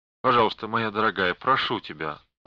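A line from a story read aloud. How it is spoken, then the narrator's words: Tender interruption, father. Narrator (Russian): ласково прервал ее отец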